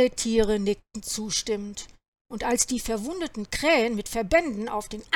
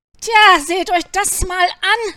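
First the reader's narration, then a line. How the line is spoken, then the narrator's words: Calling out. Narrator (German): rief Anton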